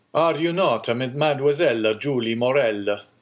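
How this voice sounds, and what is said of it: Strong Italian accent. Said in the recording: “with a strong Italian accent”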